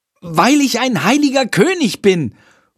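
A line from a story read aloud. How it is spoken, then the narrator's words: Calling out. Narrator (German): ruft Jendrik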